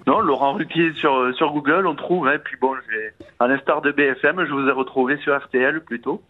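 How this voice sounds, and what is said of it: Slight southern French accent. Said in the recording (French): “vous avez un petit accent qui vient d'où ... À côté de Montauban.”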